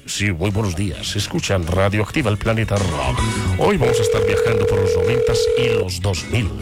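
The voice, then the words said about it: Polished radio announcer voice. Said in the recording (Spanish): “Vamos a hablar como locutor de emisora... voz de locutor... Que lo escuchen a uno bien bonito”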